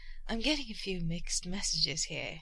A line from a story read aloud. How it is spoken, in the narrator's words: he teased, in a still hoarse voice